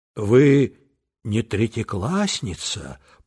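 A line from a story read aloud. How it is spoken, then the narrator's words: Timid whisper. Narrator (Russian): прошептал Петя робко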